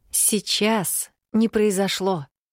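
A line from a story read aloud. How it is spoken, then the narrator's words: Soft but insistent, motherly. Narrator (Russian): мягко, но с нажимом повторила мать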